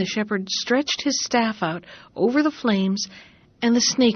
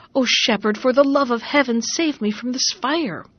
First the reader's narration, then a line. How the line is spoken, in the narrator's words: Suddenly the snake cried